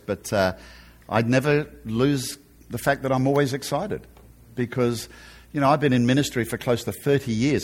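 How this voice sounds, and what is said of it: Australian accent. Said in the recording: “I haven't lost my Aussie accent”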